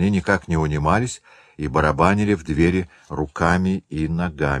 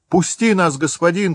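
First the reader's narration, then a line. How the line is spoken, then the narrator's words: Group shouting. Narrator (Russian): кричали они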